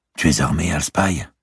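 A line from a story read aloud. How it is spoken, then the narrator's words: Sudden whisper. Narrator (French): chuchota soudain Mortimer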